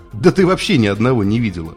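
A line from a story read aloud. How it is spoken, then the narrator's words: Technician's chuckle. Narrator (Russian): хохотнул техник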